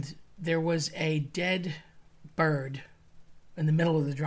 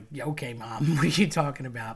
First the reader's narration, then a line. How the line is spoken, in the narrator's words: My cousin completely dismissed it and laughed at her